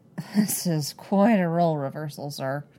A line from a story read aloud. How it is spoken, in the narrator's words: Cody grumbles